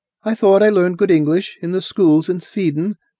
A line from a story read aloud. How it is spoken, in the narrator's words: said Maria wistfully